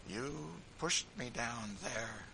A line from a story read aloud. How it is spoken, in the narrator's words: said Tom faintly